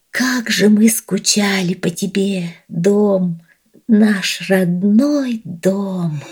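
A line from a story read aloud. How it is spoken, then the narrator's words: Quiet whisper in unison. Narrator (Russian): тихо вместе прошептали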